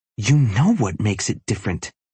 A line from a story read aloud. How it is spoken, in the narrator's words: Brenna hisses